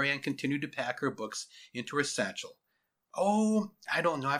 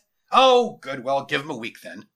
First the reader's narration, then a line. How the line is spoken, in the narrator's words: he said with a chuckle